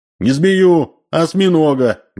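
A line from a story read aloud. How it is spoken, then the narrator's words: Loud correction. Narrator (Russian): громко поправил Грубин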